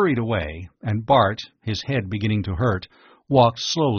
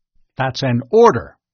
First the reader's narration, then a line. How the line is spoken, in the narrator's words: snapped the officer